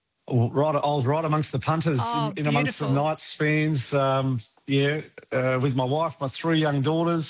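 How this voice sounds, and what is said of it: Rough, croaky voice. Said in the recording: “my voice is a little bit rough this morning as well”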